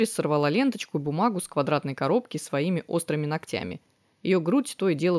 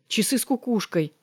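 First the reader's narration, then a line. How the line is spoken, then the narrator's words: Exclaiming. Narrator (Russian): воскликнула Дорис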